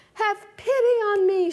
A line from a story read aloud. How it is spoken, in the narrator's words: cried